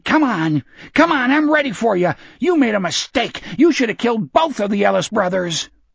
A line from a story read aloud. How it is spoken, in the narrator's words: Hutchins … shouting